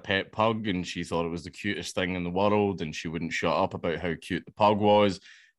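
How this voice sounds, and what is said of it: Scottish brogue. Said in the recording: “you are from Scotland, as your brogue tells us ... I noticed that you talk funny”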